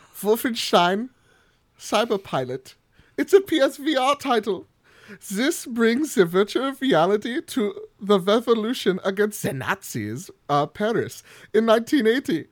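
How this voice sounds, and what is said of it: Put-on German accent. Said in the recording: “we're gonna do the accent. So I'm sorry, everybody from Germany.”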